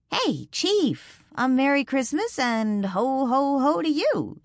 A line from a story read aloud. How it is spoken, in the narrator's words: she said cheerfully